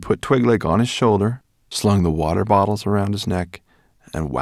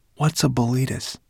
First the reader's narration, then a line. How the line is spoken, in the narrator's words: Ben whispered to Twigleg